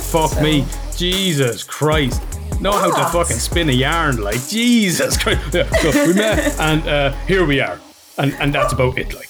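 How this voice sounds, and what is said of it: Irish accent. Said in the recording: “if you like the Irish accent, we got you covered”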